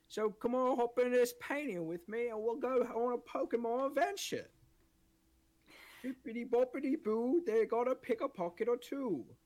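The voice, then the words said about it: Made-up British accent. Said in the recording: “I'm going with my British accent. Nobody told me how to do it. I just made it right up”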